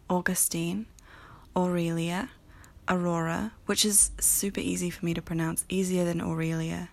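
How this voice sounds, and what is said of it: New Zealand accent. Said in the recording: “my New Zealand accent.”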